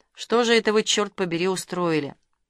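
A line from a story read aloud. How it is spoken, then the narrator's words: Melancholy. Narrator (Russian): Каширский тоскливо произнес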